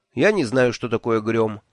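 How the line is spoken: Dry flat tone. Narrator (Russian): сухо сказал я

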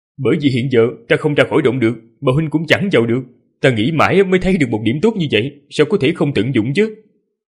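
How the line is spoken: Laughing loudly. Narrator (Vietnamese): Ninh Khuyết cười lớn

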